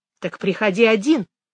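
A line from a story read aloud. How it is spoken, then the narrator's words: Sharp reply. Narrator (Russian): резко ответила Мэгги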